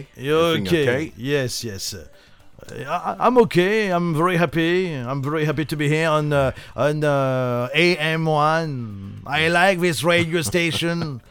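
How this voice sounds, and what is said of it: Donald Trump impression in English. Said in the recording (French): “I'm talking like my friend Donald ... L'accent de Donald Trump”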